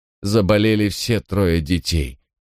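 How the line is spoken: Stony flat tone. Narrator (Russian): продолжила та каменным тоном

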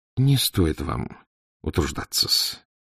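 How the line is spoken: Gentle, kind. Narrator (Russian): ласково молвил поручику Порфирий Петрович

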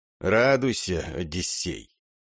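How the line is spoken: Hoarse but clear, firm. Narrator (Russian): В голосе Домата добавилось хрипотцы, но слова он произносил по-прежнему, четко и твердо

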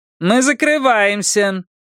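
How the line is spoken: Loud. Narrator (Russian): громко сказала официантка

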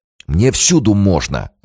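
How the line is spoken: Snapping retort. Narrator (Russian): огрызнулся Романов

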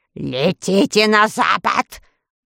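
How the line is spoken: Growling. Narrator (Russian): прорычала волшебница

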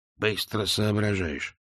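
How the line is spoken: Muttering. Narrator (Russian): буркнул Биллет

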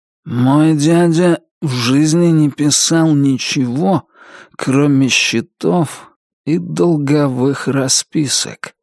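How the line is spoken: Slow sleepy voice. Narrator (Russian): сказал Туз все тем же медленным, сонным голосом

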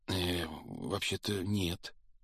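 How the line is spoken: Timid, forced reply. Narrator (Russian): робко выдавил из себя Гарри

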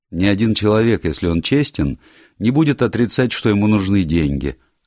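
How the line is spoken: Carefree, young man. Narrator (Russian): отозвался молодой человек беспечным тоном

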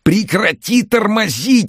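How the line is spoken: Yelling. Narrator (Russian): орал Андрей

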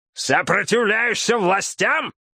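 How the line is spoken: Sudden yelling. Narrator (Russian): шериф да как завопит

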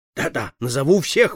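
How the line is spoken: Exclaimed. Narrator (Russian): воскликнул он

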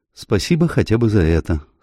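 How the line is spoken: Dry remark. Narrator (Russian): сухо заметила мисс Уильямс

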